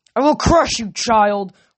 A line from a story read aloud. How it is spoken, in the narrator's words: Kronos bellowed